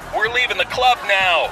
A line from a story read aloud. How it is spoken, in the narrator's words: screams